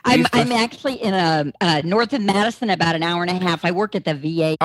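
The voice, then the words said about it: Texas accent. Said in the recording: “I'm from Texas, so you probably picked that up on the accent.”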